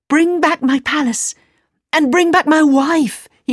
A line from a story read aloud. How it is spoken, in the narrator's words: he cried